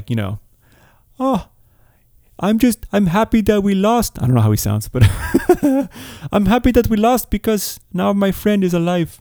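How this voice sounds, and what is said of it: Poor imitation of another person's accent. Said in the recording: “I'm sure that's a terrible accent”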